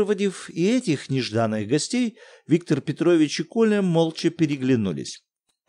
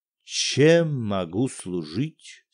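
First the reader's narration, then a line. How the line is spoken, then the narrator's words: Dejected, deflated voice. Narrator (Russian): спросил Виктор Петрович, упавшим голосом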